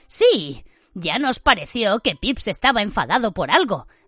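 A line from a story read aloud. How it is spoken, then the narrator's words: Enigmatic tone. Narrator (Spanish): dijo Ron en tono enigmático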